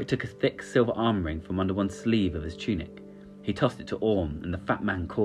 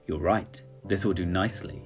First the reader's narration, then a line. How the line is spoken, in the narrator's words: he said